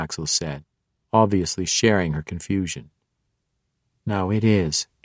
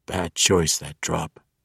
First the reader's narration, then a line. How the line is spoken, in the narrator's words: he said, his voice weak